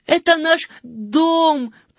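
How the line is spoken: Breathless shout. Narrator (Russian): крикнул запыхавшийся Жан

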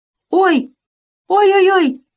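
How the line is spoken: Pained yelling. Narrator (Russian): закричал в ответ Кусандра

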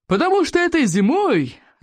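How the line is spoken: Joyful loud booming. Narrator (Russian): радостно прогудел Плевака крикливый

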